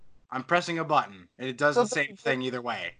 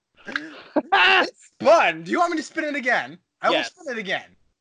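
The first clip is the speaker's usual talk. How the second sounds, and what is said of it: Put-on British accent. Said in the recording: “sounded very British”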